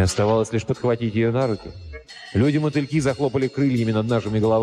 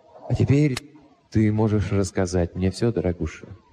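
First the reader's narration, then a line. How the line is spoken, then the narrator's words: Soft. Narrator (Russian): мягко добавил я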